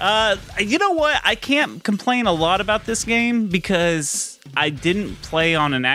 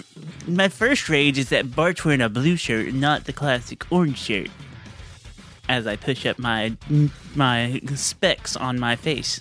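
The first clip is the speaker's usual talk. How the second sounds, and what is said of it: Cocky nerd character voice. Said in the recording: “You sound like your friend Michael right now. ... I was trying to sound like uh, like a cocky nerd.”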